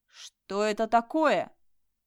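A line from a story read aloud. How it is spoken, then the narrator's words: Loud. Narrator (Russian): Громко произнесла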